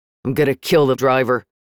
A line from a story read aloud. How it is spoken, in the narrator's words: Kaysan grumbled